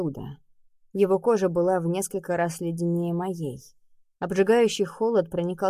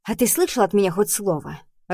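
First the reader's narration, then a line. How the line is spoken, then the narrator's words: Snapping retort. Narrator (Russian): огрызнулась я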